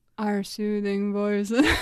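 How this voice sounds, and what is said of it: Scary demonic voice. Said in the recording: “And that was the demon from under your bed.”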